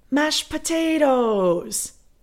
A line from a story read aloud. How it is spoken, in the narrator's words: she screams